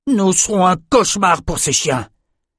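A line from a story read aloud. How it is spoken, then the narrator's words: Exclamation. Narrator (French): s'écria Ren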